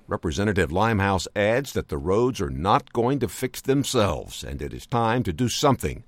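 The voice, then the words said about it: Polished radio announcer voice. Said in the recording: “What a great radio voice.”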